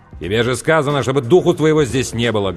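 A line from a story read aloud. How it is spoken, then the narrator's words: Barked. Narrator (Russian): гаркнул Сэм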